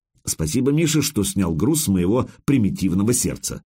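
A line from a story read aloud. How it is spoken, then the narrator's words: Plain. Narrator (Russian): сказал я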